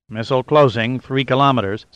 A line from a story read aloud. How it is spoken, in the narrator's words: Simpson said, his voice flat and empty